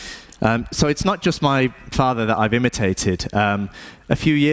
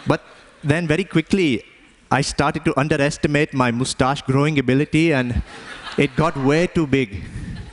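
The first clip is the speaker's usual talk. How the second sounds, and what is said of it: Put-on Indian accent. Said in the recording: “I don't know why I'm even talking like this. My dad doesn't even have an Indian accent anymore.”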